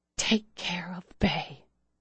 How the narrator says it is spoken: she whispered to Claire

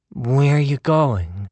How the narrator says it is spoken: Tess said, but her voice was low and mumbled

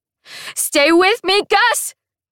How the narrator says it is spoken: I scream back over my shoulder

